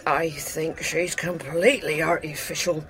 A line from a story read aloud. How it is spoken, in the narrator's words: scoffed Andrews